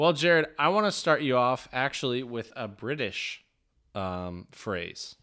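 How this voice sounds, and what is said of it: Usual voice. Nothing is said of it.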